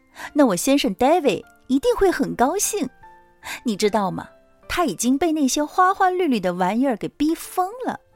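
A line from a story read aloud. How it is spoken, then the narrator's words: Laughing. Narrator (Chinese): 他笑起来说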